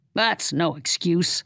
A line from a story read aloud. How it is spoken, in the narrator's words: the angry man snarled